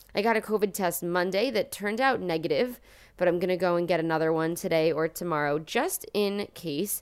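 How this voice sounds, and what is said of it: Slightly different voice from head cold. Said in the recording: “I have been sick with a head cold ... if you hear my voice sounding a little bit different this week, that is why ... I'm super tired and sleepy”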